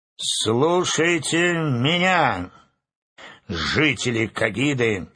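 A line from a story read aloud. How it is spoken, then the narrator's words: Loud proclamation. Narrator (Russian): громко провозгласил Урфин Джюс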